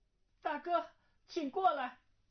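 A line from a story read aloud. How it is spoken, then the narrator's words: Calling out. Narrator (Chinese): 忽听他在房中叫道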